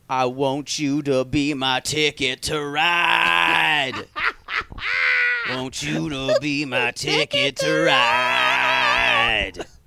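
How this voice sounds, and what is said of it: Husky R&B singer voice. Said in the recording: “There was this husky R&B singer... I'm doing my voice like that because that was how it sounded.”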